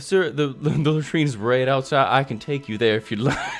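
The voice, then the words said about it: Character voice with southern accent. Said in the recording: “So, he's got a southern accent.”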